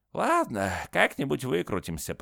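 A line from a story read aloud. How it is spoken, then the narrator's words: Grumbled. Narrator (Russian): проворчал Зигмунд Каре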